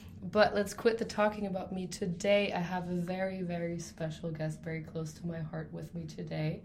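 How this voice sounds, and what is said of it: Raspy, sick-sounding voice. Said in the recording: “I'm also a little bit sick, so sorry for my raspy voice today”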